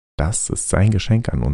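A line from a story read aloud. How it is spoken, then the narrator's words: Plain. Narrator (German): sagte Staccato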